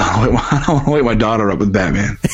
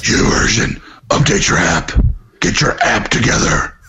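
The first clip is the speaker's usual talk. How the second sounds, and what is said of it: Half-effort Batman voice. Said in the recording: “your Batman voice ... I didn't put my full effort into that one.”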